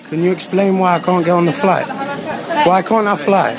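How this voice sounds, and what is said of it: Speaks with a noticeable accent. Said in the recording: “I love his accent.”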